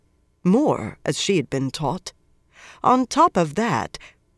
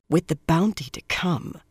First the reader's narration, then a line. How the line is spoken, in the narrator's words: Swan whispered